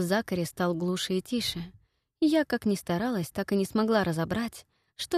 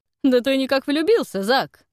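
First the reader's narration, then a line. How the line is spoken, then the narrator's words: Booming laugh. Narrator (Russian): Громогласно хохотнул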